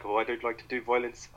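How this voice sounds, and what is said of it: Put-on South African accent. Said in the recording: “I shouldn't do the South African accent.”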